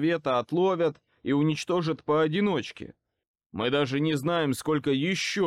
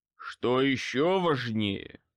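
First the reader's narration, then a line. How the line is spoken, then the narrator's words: Growled. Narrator (Russian): прорычал Морган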